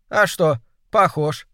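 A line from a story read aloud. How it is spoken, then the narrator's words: Cheerful. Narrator (Russian): сказала весело она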